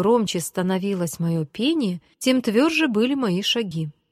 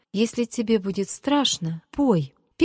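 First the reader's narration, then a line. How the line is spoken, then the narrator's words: Timid start. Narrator (Russian): Петя начал робко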